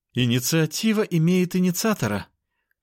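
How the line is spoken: Moaning. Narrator (Russian): простонала сестра

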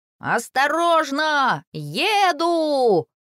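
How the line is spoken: Shouting. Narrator (Russian): кричал он другим малышам

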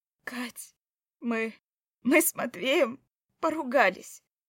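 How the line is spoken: Strained, forced out. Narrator (Russian): выдавила

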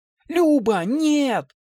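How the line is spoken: Horrified scream. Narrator (Russian): закричала она, увидев, как тонкая петля захватила шею сестры

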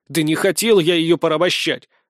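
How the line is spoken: Indignant objection. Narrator (Russian): возмущенно возразил я

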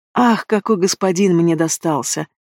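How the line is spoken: Purring. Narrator (Russian): Продолжаю мурлыкать

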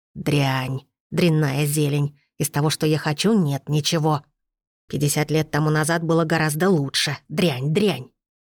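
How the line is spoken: Old woman muttering. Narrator (Russian): старуха пробормотала

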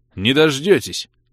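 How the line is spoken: Snapping bark, losing patience. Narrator (Russian): Не выдержав, рявкнул я

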